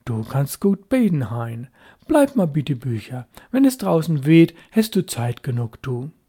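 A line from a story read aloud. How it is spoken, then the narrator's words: Approving tone. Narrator (German): sagte anerkennend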